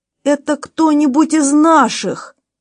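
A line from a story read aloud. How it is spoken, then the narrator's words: Sudden cry. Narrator (Russian): Бельмонт вскрикнул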